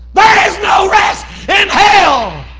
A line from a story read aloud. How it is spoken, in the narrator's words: screamed